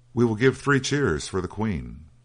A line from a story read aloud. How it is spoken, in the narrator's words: He cried